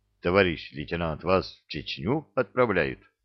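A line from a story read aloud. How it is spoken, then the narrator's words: Sympathetic whisper. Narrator (Russian): сочувственно зашептал Балчу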